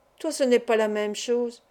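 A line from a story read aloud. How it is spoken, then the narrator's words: Sadly. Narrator (French): dit-elle tristement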